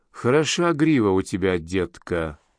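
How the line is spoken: Mutter. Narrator (Russian): пробормотала

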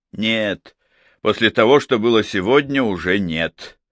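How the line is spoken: Gloomy agreement. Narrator (Russian): мрачно согласился Варгаш

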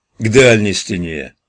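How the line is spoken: Fat cop's routine growl. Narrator (Russian): привычно рыкнул толстяк-коп

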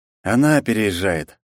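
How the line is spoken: Sigh. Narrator (Russian): вздохнул я

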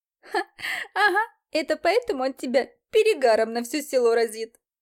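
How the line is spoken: Laughing woman. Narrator (Russian): Рассмеялась женщина с платком на голове

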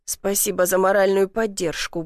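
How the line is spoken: Grumbled. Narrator (Russian): буркнул

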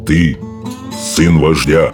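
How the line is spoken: Solemn declaration. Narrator (Russian): торжественно заявил он

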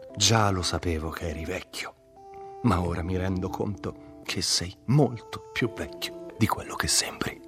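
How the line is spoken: Sighed. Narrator (Italian): sospirò

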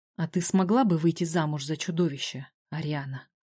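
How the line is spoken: Quiet, barely audible. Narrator (Russian): Он проговорил тихо, едва слышно

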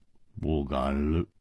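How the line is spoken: Sighing in unison. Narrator (Chinese): 胡铁花和姬冰燕不约而同地叹了一口气，说

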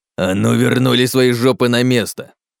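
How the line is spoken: Growled. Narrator (Russian): прорычал Гунон

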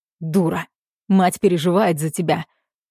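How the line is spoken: Rough bark. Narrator (Russian): рявкает грубо

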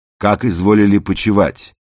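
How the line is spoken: Loud, manly. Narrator (Russian): громко и мужественно сказал

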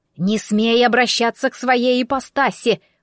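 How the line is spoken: Sudden hiss. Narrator (Russian): вдруг зашипела яга

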